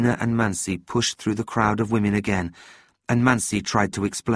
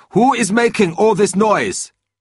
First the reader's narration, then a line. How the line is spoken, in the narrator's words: a young guard shouted